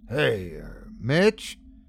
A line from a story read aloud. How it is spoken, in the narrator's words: I mumble